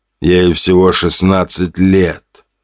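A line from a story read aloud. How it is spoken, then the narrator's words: Drake, moaning. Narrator (Russian): простонал селезень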